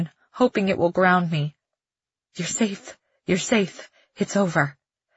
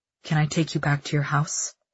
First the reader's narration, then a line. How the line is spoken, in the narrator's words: Cal asks, his voice low